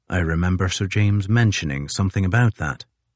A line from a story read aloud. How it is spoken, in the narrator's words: Crozier said dryly